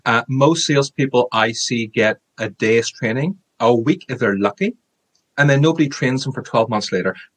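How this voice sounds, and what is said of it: Irish accent. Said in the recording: “I've got an Irish accent”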